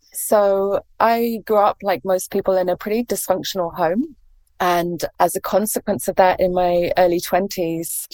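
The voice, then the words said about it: English accent. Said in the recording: “as you can probably tell from my accent, I'm English”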